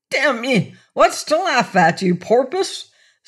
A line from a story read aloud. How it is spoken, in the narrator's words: spluttered